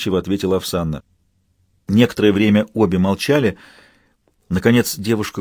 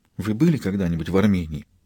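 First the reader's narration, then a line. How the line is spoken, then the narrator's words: Quiet question. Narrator (Russian): тихо спросила она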